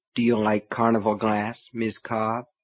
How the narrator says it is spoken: he asked softly

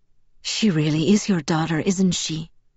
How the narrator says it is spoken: Carmen breathed

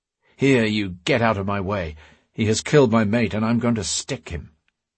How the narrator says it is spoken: the Briton growled

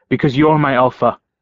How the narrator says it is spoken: blurted out

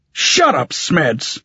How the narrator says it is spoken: Tully snapped

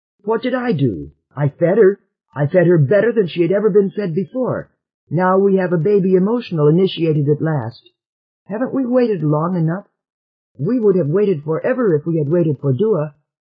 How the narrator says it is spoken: Trit retorted hotly

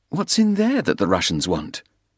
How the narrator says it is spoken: Soames sighed irritably

